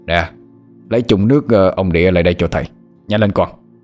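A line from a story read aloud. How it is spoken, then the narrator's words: Shout. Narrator (Vietnamese): Thầy quát lên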